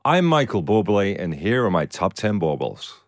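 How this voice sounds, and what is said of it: Put-on Canadian accent. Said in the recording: “That was a very good Canadian accent... Absolutely impeccable Canadian accent.”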